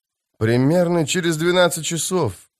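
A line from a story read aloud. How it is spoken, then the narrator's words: Muttering. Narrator (Russian): пробормотал Элан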